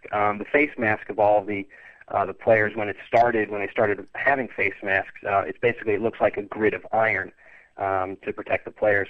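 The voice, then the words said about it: American accent. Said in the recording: “I'm picking up a bit of an accent from you... I was originally from St. Louis, Missouri.”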